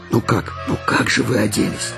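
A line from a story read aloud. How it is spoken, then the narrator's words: Mother whispering. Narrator (Russian): шептала их мама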